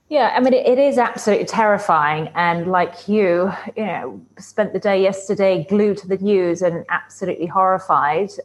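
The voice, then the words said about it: British accent. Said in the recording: “born in Britain, as you can tell by her very wonderful accent”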